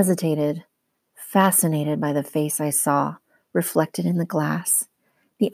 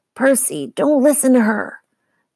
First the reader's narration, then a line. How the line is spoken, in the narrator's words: Medusa cackled